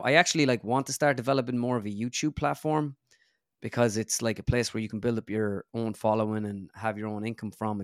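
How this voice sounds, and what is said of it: Flat Irish accent. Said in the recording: “my accent is so flat and mundane ... our Irish accents ... I find mine to be just so kind of flat”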